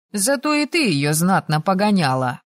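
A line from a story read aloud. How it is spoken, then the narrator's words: Amused snort. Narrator (Russian): хмыкнул Асакура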